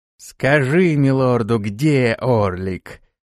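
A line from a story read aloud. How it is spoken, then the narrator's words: Steely command. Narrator (Russian): Стальным голосом приказала она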